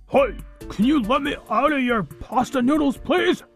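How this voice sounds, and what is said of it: Muffled character voice. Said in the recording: “in a muffled voice”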